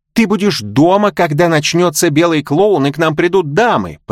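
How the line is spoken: Shout. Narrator (Russian): прокричала Милдред

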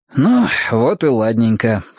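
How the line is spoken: Smirking grunt. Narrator (Russian): хмыкнул Кин

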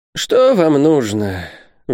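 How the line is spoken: Sighing. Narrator (Russian): вздохнул Исаак Хакабут

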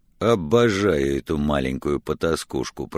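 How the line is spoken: Muttering. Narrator (Russian): пробормотал тот

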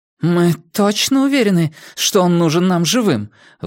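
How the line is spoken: Forced out, strained. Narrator (Russian): выдавила она

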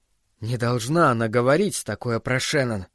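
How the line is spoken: Whispered. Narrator (Russian): прошептал он

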